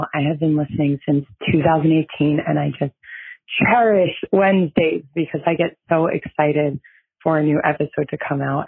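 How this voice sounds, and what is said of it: Scratchy, hoarse, nearly lost voice. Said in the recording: “I have no voice because I was just screaming at the top of my lungs all day yesterday for the marathon. So sorry for the scratchy podcast voice”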